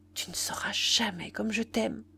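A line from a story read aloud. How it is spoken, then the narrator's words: Murmured. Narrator (French): elle murmura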